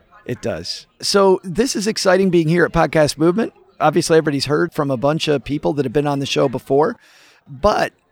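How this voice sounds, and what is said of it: Strained, fading hoarse voice. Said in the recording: “I'm losing my voice already ... You're getting ... with less and less voice”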